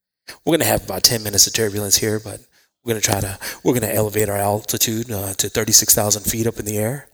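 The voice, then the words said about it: Airline pilot announcement voice. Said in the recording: “I sound just like a pilot”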